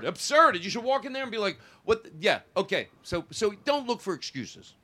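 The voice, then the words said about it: Yelling, passionate loud speech. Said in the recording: “Why am I yelling? ... Because you care ... I speak so passionately”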